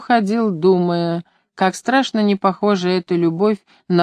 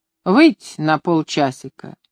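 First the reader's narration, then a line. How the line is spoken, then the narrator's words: Grimacing, displeased. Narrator (Russian): говорил мне, сморщив переносие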